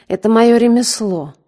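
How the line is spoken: Short laugh. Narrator (Russian): снова хохотнул

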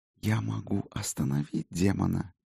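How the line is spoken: Whisper. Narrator (Russian): шепнула Солей

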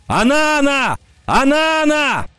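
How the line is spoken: Shouting. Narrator (Russian): Кикаха закричал

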